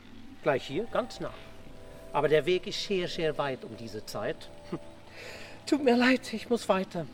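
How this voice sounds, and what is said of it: Odd-sounding accent or dialect. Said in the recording (German): “Was redet der eigentlich so komisch daher? Ist das ein Akzent oder ein Dialekt? ... Vielleicht ein Holländer. ... Oder ein Bayer”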